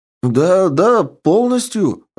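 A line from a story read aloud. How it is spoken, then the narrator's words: Joyful exclamation. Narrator (Russian): радостно воскликнул Андре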